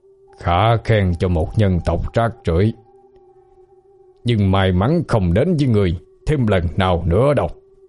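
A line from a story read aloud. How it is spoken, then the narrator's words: Growling. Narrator (Vietnamese): Miệng hắn gầm gừ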